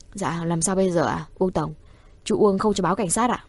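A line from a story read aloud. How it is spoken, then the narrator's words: Quiet voice. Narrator (Vietnamese): Vị quản lý của phòng trà nhỏ giọng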